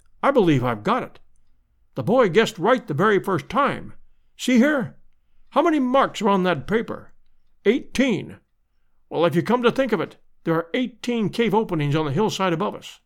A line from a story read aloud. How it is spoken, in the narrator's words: he cried